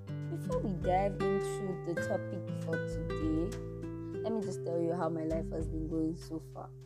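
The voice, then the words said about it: Rough, strained-sounding voice. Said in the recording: “my voice sounds like shit”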